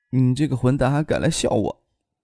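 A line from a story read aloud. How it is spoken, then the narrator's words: Soft-voiced. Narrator (Chinese): 张可……柔声的说道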